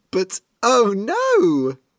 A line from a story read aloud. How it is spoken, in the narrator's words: They started giggling